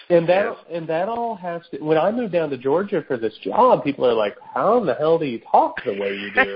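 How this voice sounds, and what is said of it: Southern-leaning Southern Indiana accent. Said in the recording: “we're from Southern Indiana ... My accent and your accent is more Southern than it is Midwestern”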